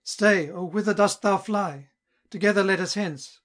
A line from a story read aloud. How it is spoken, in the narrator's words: exclaiming